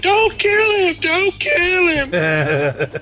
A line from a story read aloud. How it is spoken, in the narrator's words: start screaming at the dude